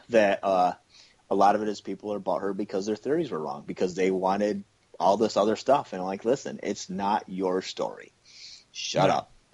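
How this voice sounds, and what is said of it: Cynical tone of voice. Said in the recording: “in my cynical voice”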